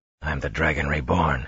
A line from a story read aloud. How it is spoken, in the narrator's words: he muttered